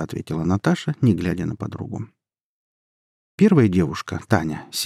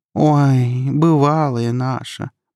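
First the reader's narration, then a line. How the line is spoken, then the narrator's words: Drawl. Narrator (Russian): протянула Наташа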